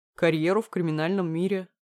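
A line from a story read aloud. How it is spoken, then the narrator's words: Smirking reply. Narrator (Russian): хмыкнул он в ответ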